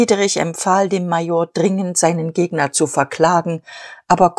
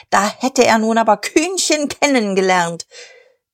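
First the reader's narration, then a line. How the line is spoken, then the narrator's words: Shouting. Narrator (German): schrie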